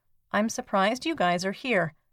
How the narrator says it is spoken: The Russian soldier calmly saying

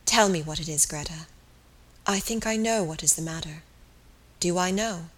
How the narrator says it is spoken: He said again softly

